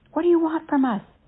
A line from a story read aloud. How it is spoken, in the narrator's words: he shouted over the storm